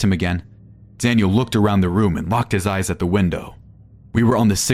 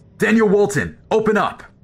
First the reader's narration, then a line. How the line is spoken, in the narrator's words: shouted a man on the other side of the door